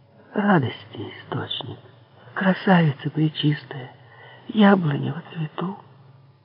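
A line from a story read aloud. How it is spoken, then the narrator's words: Fervent tender whisper. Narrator (Russian): шептала все горячей и умиленней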